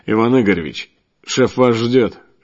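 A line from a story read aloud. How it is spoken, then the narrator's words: Polite but cold. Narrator (Russian): Вежливо, но довольно-таки холодно, сказал лысый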